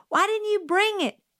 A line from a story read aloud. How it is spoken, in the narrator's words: Jim yelled